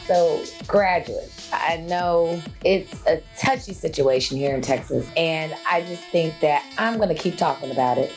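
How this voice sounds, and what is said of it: Hoarse, nearly lost voice. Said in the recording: “As you can hear, my voice is almost out”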